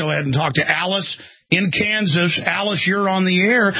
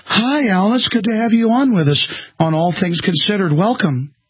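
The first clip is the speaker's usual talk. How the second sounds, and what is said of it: Mock NPR radio voice. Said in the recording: “Should I talk in an NPR voice?”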